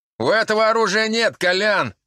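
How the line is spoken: Shout. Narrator (Russian): крикнул он

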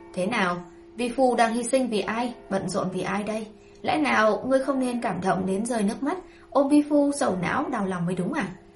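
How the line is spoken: Sneering. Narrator (Vietnamese): Tây Lương Mạt cười khẩy

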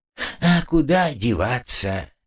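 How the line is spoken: Sad sigh. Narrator (Russian): печально вздохнул слуга

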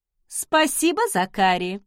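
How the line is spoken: Sing-song thanks. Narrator (Russian): распевным голосом поблагодарила крестная

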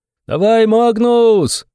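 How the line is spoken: Hoarse roar. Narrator (Russian): срывая горло, проревел Антоха

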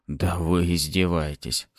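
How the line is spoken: Hoarse, breathless indignation. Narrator (Russian): хрипло возмутился я, так как дыхание все еще было сбито

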